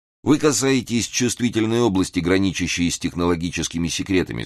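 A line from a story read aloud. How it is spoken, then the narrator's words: Plain. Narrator (Russian): сказал он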